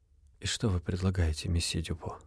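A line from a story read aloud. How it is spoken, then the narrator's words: Weary sighing question. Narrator (Russian): Устало вздохнув, спросил англичанин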